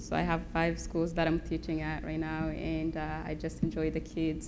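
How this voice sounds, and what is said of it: Noticeable non-American accent. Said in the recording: “she's got a pretty sweet accent ... I don't think it comes from Spokane”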